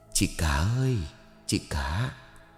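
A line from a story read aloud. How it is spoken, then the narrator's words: Gentle, poignant call. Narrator (Vietnamese): tiếng gọi từ ngoài cửa sổ vang lên nhẹ nhàng nhưng thấm thía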